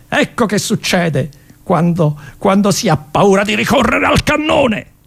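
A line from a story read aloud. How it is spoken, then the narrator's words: General shouting. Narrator (Italian): Il generale gridò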